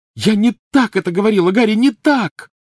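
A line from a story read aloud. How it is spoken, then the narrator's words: Shouting. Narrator (Russian): закричала она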